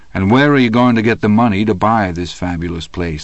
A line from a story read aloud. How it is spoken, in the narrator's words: I asked